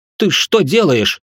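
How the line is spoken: Indignant question. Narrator (Russian): Возмущенно спросил я

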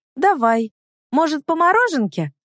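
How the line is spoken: Joyful exclamation. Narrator (Russian): радостно вскрикивает при виде киоска

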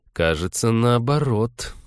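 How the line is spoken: Gloomy objection. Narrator (Russian): мрачно возразил Станислав

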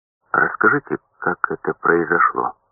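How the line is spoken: Plain question. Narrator (Russian): спросил я

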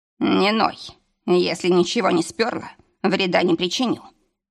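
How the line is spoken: Rough. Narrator (Russian): добавил грубо

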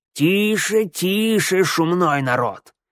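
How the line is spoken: Old man's creaky voice. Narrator (Russian): проскрипел старичок

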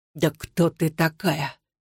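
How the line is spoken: Barely audible whisper. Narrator (Russian): Также шепотом спросил Александр, почти неслышно, стараясь дышать ровно

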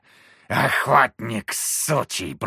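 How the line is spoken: Creature hissing. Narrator (Russian): прошипела тварь

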